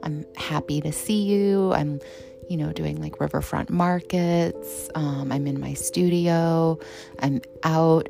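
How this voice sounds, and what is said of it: Calm radio-style voice. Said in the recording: “my NPR voice”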